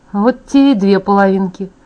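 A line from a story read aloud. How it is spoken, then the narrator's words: Sigh. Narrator (Russian): он вздохнул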